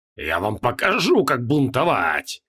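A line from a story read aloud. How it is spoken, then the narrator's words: Hoarse, beside himself with rage. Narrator (Russian): хрипел Креол, не помня себя от бешенства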